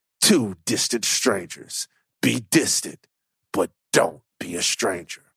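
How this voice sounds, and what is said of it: Movie trailer announcer voice. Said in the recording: “Trailer Voice Van. TVV.”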